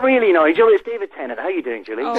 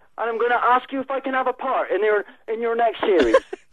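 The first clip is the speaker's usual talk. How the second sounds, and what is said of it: Inconsistent put-on accent. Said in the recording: “he's not very good, clearly, with an accent like that ... My best accent. ... Oh, it was all over the place.”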